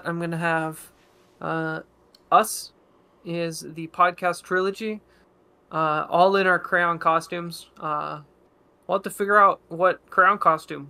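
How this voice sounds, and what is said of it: Accent, "crayon" sounds like "crown". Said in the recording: “Sound like you're crayon. Saying crown. ... my accent”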